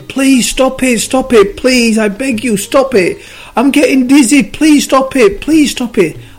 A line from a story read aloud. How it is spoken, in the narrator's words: And then the clay started screaming again